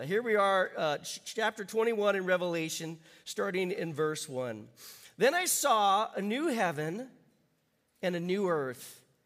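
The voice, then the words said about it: Voice still sounds ill. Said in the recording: “You'll have to forgive my voice today. I had one of those colds that's been going around, but I'm feeling much better. I just don't sound like it yet.”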